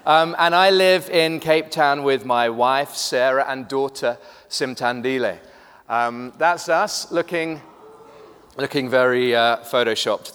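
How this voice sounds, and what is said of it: Mixed British and South African accent. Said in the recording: “I am British, but have lived in Cape Town for the last 14 years. Slightly confused accent”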